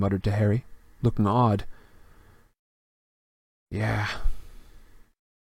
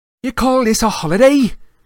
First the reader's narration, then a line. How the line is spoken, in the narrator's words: Seamus Finnegan roared at the common room